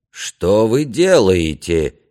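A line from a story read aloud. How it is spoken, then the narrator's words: Half moan, half shout. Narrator (Russian): не то простонал, не то прокричал магистр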